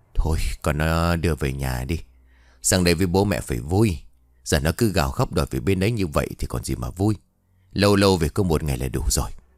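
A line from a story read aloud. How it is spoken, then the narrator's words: Sighing. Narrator (Vietnamese): ông Cương thở dài rồi bảo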